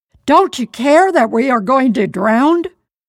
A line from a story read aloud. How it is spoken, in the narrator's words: We shouted at him